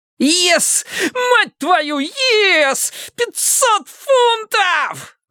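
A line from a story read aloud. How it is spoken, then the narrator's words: Ecstatic yelling. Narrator (Russian): завопил Мартин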